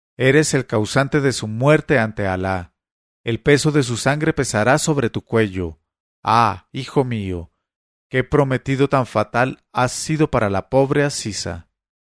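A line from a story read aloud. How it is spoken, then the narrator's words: Mother exclaiming. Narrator (Spanish): mi madre, que exclamó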